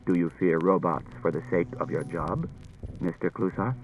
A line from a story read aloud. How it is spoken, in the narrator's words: Daniil said quietly to Klusar